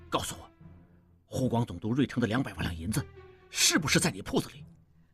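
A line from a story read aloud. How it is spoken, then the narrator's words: Sudden low voice. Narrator (Chinese): 应季忽然又低声说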